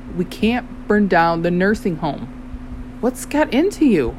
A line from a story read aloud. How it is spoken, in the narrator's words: I said firmly